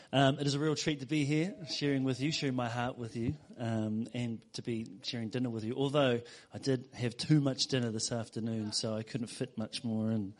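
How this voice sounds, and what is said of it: New Zealand accent. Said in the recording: “my accent is not from Lee ... from the faraway shores of Kiwiland or New Zealand”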